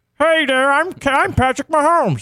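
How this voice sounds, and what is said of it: Kermit the Frog-like imitated voice. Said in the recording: “a Patrick Mahomes voice ... which is very Kermit the Frog-esque ... That's actually not bad ... Not terrible”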